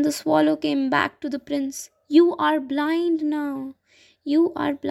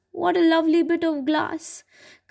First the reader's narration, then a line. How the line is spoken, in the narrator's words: cried the little girl